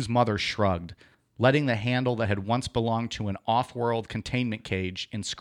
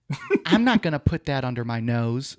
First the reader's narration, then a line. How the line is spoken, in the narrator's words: Sue laughed